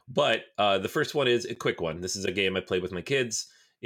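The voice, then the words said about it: Strained, congested voice. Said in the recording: “my voice is not cooperating this week. I'm getting over this cold.”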